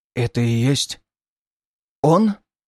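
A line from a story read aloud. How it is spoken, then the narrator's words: Hoarse, barely moving dry lips. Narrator (Russian): осипшим голосом спросил Мисис, едва шевеля пересохшими губами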